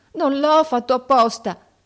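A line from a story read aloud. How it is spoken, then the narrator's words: Shouted. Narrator (Italian): gridando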